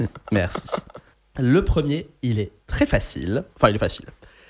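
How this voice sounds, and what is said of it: Usual voice. Nothing is said of it.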